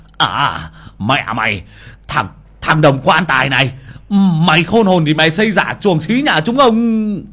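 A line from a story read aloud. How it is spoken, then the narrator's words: Fierce hiss. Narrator (Vietnamese): một bàn tay hung hăng túm của ông mà rít lên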